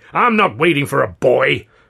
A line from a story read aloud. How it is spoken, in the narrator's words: Considine bellowed